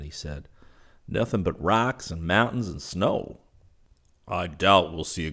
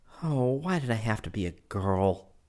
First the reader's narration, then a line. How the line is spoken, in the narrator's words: She moaned